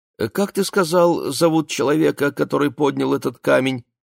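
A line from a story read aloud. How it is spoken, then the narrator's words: Innocent tone. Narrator (Russian): он вдруг спросил самым невинным тоном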